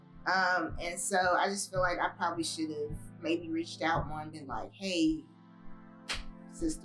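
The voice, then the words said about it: Speaks with a noticeable accent. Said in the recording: “It's my accent.”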